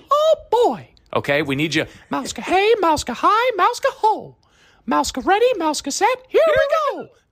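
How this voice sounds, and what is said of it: Mickey Mouse impression. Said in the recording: “your Mickey Mouse impression”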